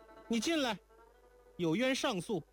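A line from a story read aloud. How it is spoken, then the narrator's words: Calling from next room. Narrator (Chinese): 在隔壁……叫道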